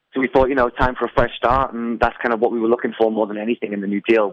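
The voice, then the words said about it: British accent. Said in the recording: “your little accent that you have, you guys are from, or you're from the United Kingdom”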